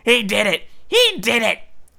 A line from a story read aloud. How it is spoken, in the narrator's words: Filch spat, his pouchy face purpling